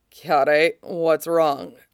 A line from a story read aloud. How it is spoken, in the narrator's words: Cody asks, voice still raspy from sleep